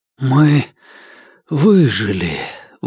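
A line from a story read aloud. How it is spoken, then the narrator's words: Breathless, disbelieving. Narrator (Russian): выдохнул я, едва веря своим словам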